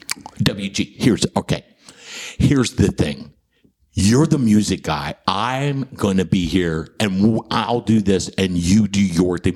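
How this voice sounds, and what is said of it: Matter-of-fact imitation of another person's voice. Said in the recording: “terrible John Taffer impression ... Very matter of fact.”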